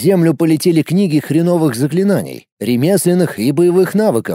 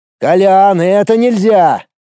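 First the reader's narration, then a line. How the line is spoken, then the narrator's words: Yelling. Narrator (Russian): заорал я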